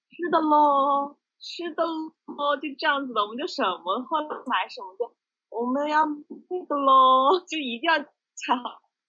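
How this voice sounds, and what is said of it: Imitated heavy Changsha accent. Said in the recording (Chinese): “他他的口音特别重”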